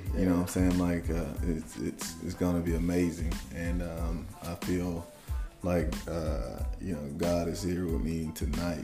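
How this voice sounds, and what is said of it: Choked-up emotional voice. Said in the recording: “I'm getting choked up already.”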